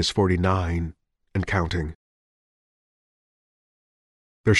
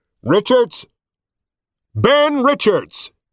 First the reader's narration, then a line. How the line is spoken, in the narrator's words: Gigantic megaphone booming voice